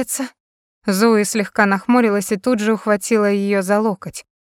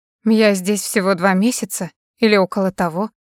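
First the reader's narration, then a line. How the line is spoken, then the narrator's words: Dry. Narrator (Russian): сухо ответила Кэрри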